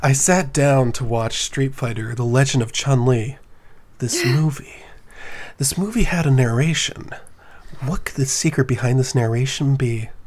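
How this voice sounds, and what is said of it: Impression of a movie narrator. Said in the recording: “could you do an impression of the narration? Because I think I can.”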